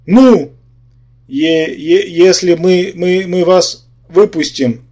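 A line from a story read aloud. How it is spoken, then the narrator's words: Timid mutter. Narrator (Russian): робко пробормотал Юра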